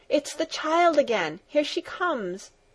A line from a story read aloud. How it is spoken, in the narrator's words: the grandmother called out from her corner